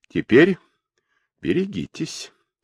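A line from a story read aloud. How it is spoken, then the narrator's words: Insinuating voice. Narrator (Russian): вкрадчивым голосом проговорил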